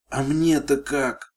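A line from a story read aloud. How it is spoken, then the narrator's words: Moaning. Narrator (Russian): простонала она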